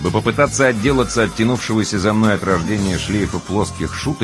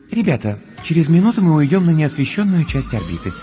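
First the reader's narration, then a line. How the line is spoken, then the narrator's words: Gentle voice over speakers. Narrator (Russian): нежным голосом напоминает из динамиков скафандра Астрид Йенсен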